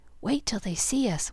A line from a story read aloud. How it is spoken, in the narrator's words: whispered Demi